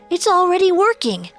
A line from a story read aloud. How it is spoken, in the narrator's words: the fish exclaimed